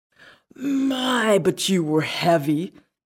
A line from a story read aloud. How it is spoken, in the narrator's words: exclaimed the fat one